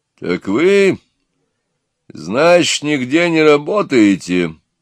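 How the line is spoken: Stern question. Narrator (Russian): строго спросил некто

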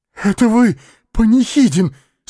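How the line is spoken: Muffled hollow voice. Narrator (Russian): спросил он глухим голосом

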